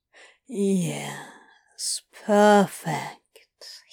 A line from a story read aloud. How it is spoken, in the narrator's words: drawled, unhurried, one low syllable at a time